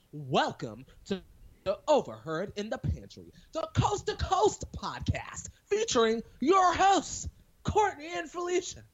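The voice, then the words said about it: Put-on podcast host voice, strained. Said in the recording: “podcast voice ... It sounded a little strained at the end there.”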